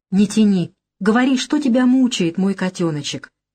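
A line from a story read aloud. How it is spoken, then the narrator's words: Gentle, affectionate. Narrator (Russian): ласково проговорил он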